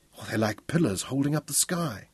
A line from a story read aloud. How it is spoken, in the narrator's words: she breathed